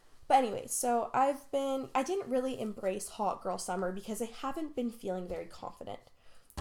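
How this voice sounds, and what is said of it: Sick-sounding voice. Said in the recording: “I'm also sick right now. I don't know if you can ... hear it in my voice.”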